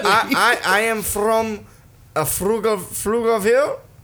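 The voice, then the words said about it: Put-on broken-English accent. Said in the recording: “the broken English ... I'm making up the accent”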